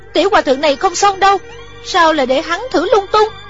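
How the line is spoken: Frightened cry. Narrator (Vietnamese): Thủy Sinh sợ hãi kêu lên

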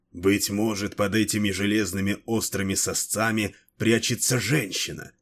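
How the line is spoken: Hoarse mutter. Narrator (Russian): хрипло пробормотал

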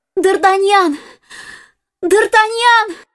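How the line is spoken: Shouting. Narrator (Russian): закричала она

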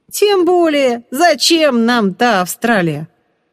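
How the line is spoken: Loud declaration, young man. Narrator (Russian): громко заявил парень

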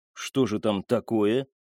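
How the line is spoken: Plain. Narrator (Russian): спросил Яссен

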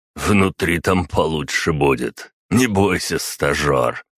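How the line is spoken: Chuckling. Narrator (Russian): хохотнул Марат

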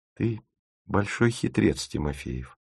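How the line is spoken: Whispered. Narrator (Russian): шепнула она

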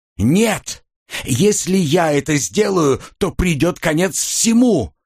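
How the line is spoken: Hoarse shout. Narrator (Russian): хрипловато выкрикнул я

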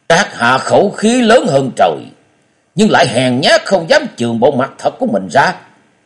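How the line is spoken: Angry snort. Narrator (Vietnamese): Hắn tức giận hừ lên một tiếng và nói

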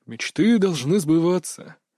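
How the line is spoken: Heavy sigh. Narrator (Russian): тяжело вздохнул он

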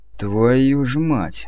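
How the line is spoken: Sudden exhaled exclamation. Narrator (Russian): выдохнул внезапно Чеснок

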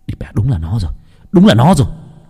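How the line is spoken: Shouting. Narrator (Vietnamese): Nam hét lên

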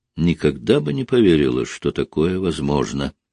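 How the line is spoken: Quiet. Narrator (Russian): тихо сказала она

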